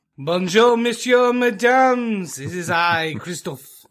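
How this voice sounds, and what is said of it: Stereotypically bad French accent. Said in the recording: “stereotypically bad accent ... one French word”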